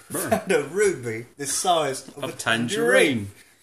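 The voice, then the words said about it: Michael Caine impression. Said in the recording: “Michael Caine accent.”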